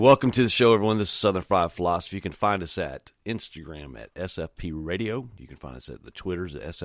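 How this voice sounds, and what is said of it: Usual voice. Nothing is said of it.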